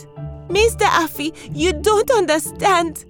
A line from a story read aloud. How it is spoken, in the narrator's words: cried Lie